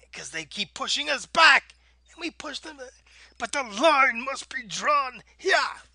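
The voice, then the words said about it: Shouted Captain Picard impression. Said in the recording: “my Picard impression was pretty good”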